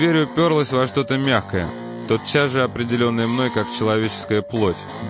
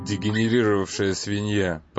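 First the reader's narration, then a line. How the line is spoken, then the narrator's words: Muttering. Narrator (Russian): пробормотал я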